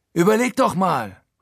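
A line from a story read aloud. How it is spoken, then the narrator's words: Calling out. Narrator (German): ruft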